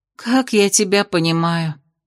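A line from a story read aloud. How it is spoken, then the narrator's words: Sigh. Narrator (Russian): вздохнула она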